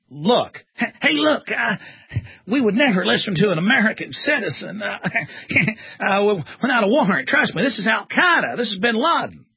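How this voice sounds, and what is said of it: Weak fake Texan Bush impression. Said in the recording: “Bush ... It's hard as a Texan to do a fake Texan ... I can't do a fake Texas accent very good”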